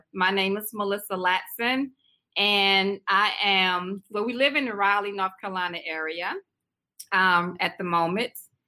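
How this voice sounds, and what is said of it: South Carolina accent, drawn-out words. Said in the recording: “I'm originally from South Carolina. You might can tell my little accent, you know, little small. ... I keep my words for a long time when I say them. I drag my words out a little bit.”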